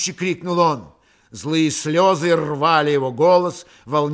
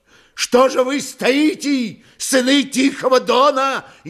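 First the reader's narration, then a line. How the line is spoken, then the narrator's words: Old man shouting again. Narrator (Russian): Еще раз крикнул старик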